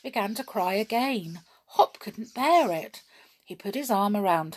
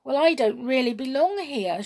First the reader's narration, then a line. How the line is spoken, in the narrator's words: said sadly